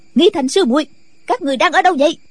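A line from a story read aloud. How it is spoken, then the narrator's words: Shout. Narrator (Vietnamese): Nghi Hòa lại quát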